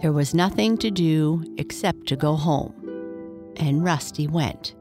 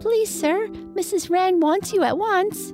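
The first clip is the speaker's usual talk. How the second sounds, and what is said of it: Childish peeping voice. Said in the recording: “peeped in his childish voice.”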